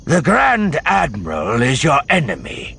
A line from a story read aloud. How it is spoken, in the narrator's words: Sabaoth snapped suddenly